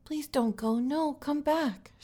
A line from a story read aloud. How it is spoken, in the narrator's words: cried